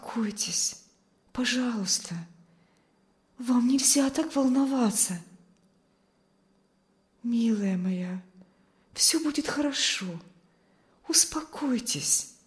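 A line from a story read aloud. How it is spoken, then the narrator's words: Soothing whisper. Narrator (Russian): шептала миссис Ковальская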